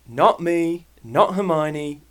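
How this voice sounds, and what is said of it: Put-on British accent. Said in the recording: “do it in a british accent ... i'm going to do it in a british accent”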